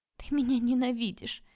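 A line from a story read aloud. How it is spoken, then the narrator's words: Sincere-sounding sob. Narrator (Russian): я всхлипнула, как мне показалось, очень искренне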